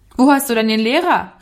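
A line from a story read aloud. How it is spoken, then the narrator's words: Calling out. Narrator (German): rief er ihm zu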